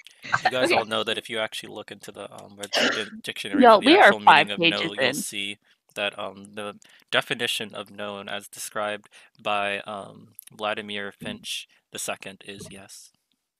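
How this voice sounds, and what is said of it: Put-on podcast host voice. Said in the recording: “his podcast voice”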